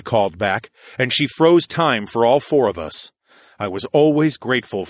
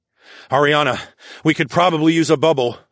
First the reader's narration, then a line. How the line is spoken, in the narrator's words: I gasped